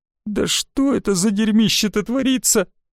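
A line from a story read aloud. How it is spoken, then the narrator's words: Tearful, trembling question. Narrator (Russian): спросила она сквозь слезы и дрожь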